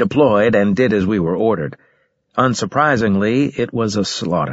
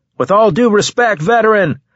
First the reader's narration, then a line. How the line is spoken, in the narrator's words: I shouted